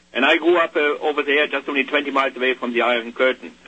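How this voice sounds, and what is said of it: German accent. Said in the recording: “you probably noticed by my accent, ... over 40 years ago I immigrated from Germany.”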